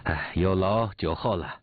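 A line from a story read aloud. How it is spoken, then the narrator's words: Catching breath. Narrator (Chinese): 姓农方才匆匆的来了，喘一口气坐定说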